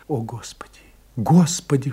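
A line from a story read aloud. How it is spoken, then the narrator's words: Whisper. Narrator (Russian): шептала Франсуаза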